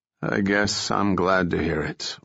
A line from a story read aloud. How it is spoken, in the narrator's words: Langston said wearily